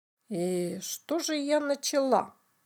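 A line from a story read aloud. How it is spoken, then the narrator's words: Innocent question. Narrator (Russian): невинным голосом спросила Биберева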